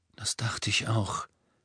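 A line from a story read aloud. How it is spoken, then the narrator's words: Murmured. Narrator (German): murmelte er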